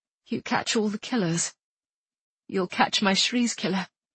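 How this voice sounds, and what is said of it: Distinctive British accent. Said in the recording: “She spoke with a distinctive British accent.”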